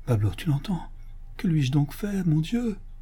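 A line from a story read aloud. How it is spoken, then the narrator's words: Murmured. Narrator (French): murmura Don Diego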